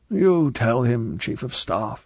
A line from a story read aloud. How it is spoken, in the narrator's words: he said wearily